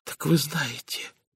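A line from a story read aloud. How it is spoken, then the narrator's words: Whisper. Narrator (Russian): прошептала она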